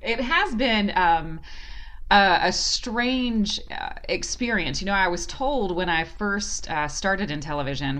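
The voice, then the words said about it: Southern American accent. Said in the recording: “having a Southern accent”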